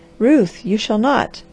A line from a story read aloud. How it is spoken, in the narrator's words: cried the man